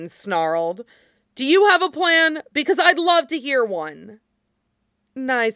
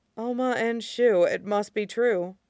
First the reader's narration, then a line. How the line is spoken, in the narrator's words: Ling murmured